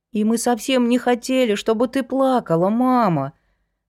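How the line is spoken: Almost plaintive. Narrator (Russian): почти жалобно дополнил Артём

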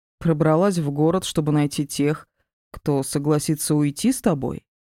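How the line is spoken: Plain. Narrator (Russian): спросил он

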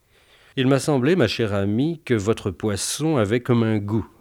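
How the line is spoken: Annoyed murmur. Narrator (French): murmura-t-il, sur un ton d'agacement

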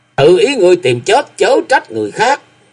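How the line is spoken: Loud shout. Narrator (Vietnamese): tổng quản mật sứ các lời quát lớn

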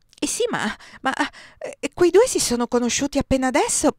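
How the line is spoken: Stammering. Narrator (Italian): balbettai

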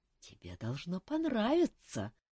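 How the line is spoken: Passionate whisper. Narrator (Russian): страстно прошептал Александр

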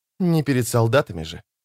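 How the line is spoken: Whispered. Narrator (Russian): прошептала она

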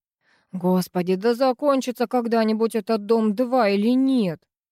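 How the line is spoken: Exasperated wail. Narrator (Russian): взвыла Циглер

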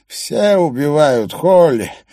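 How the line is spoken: Nasal preacher's voice. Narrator (Russian): голос проповедника приобрел иное, более гнусавое звучание

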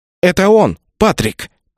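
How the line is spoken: Through gritted teeth. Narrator (Russian): процедила Рэйчел

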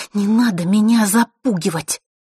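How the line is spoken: Through gritted teeth. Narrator (Russian): процедила Василиса

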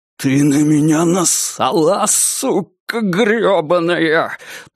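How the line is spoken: Hissing. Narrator (Russian): прошипел он

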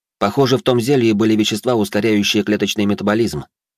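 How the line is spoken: Starts, then trails off. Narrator (Russian): начал было Алекс, но быстро сдулся

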